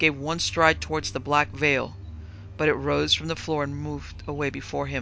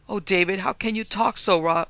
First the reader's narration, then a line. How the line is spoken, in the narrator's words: sobbed her mother